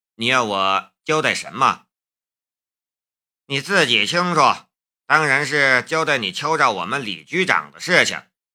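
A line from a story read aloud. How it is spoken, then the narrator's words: Calm, indifferent. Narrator (Chinese): 夏雷一点也不慌张，他淡淡的说道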